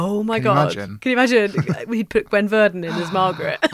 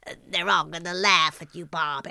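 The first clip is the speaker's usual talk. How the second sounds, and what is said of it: Impression with Marge Simpson-like voice. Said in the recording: “your weekly impression slot ... That's more Marge Simpson in it.”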